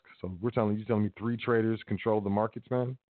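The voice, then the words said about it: Sarcastic delivery. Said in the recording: “hear the sarcasm in my voice.”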